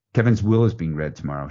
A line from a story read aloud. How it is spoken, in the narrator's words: she says